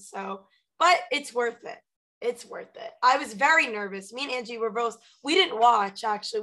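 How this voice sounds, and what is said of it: Hoarse, nearly lost voice. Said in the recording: “my voice is also kind of gone now. I'm coughing.”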